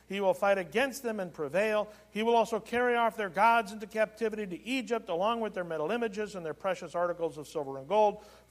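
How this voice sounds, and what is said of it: Reading aloud very fast. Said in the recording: “I'm reading this fast”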